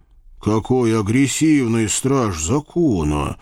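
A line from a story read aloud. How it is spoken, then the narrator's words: Grumbled. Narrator (Russian): буркнул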